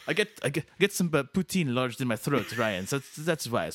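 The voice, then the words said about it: Put-on, shaky Quebecois French accent. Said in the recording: “my French-Canadian ... friend over here ... having trouble with the accent a little bit.”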